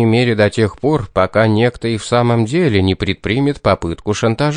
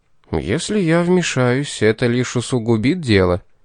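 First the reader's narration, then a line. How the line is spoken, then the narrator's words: Gentle. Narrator (Russian): мягко сказал Пит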